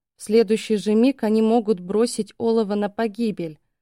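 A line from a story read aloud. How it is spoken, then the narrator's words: Quiet indignation. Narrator (Russian): возмутилась я, но тихо, стараясь не вызвать эхо в этом коридоре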